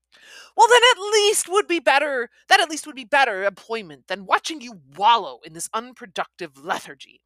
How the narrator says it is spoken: countered sharply

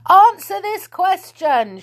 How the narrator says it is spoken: shouted Moonface

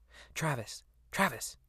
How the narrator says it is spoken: hisses

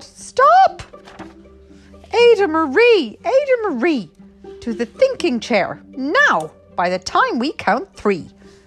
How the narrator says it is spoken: her parents yelled

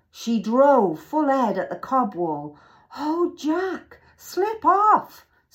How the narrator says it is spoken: screamed Annie

